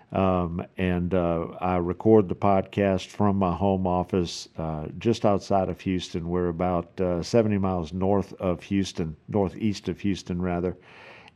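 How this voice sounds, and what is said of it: South Louisiana accent. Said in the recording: “I'm originally from South Louisiana, so if you don't recognize the accent, that's what it is.”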